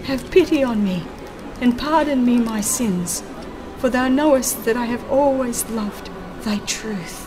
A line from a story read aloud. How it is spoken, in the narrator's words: he cried